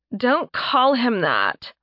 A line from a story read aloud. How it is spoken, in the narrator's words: Mora groaned